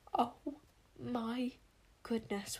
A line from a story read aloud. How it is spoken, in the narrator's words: whispered Wish in horror